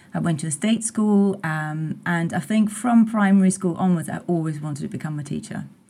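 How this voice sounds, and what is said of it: Austrian-accented English. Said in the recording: “I'm detecting a bit of a non-English accent coming through here ... I'm Austrian.”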